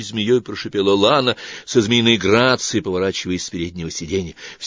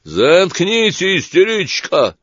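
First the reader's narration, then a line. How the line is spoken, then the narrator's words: Sudden yell. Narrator (Russian): вдруг заорал олигарх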